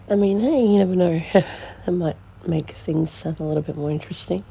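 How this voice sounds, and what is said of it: Unwell-sounding voice. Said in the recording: “Please excuse my voice. I've been recovering from a bit of a sickness”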